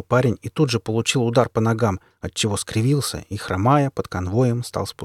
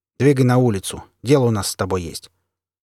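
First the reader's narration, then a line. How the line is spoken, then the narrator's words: Satisfied grunt. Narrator (Russian): второй бандит довольно хмыкнул и сказал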